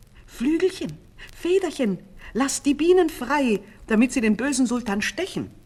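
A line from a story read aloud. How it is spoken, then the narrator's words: Little rooster crying out. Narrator (German): rief das Hähnchen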